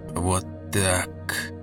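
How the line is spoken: Muttering. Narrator (Russian): бормотал Томас

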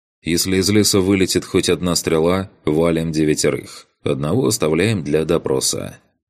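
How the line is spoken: Calm, over radio channel. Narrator (Russian): спокойно сказал я в канал

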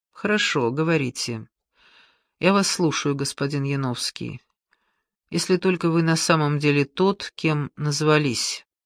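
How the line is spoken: Quiet reply after long pause. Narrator (Russian): помолчал несколько длинных секунд, негромко отреагировал

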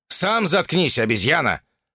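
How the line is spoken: Snapping. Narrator (Russian): огрызнулся он

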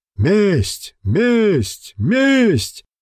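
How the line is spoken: Many voices shouting. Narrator (Russian): закричали со всех сторон

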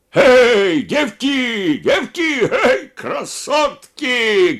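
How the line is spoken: Shouting. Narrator (Russian): кричал Елизаров

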